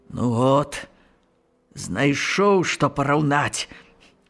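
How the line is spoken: Grumbled. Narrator (Belarusian): буркнуў

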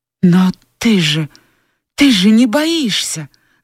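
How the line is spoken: Exclamation. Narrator (Russian): воскликнула Скарлетт

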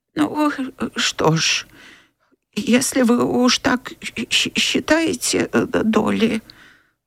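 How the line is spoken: Sighing mutter. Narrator (Russian): Вздохнув, пробормотала

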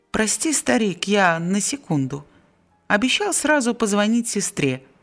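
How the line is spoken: Plain. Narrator (Russian): сказал Жиль

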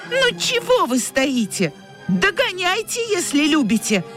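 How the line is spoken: Shouted. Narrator (Russian): прокричала Тося

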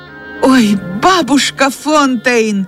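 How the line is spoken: Exclaimed. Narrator (Russian): воскликнула Джейн

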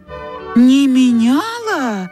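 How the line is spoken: Astonished women in unison. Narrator (Russian): в один голос воскликнули обе молодые дамы, пораженные до глубины души

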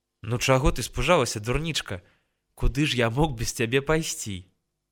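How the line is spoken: Tender smiling speech. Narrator (Belarusian): ласкава усміхнуўся ён

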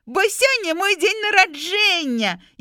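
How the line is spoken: Girl shouting breathlessly. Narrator (Belarusian): Яшчэ не паспеўшы апамятацца сходу, крыкнула ўнучка

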